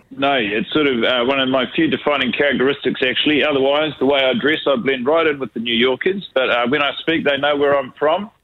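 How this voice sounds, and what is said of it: New Zealand accent. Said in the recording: “You haven't lost that New Zealand twang, even if you have been in New York.”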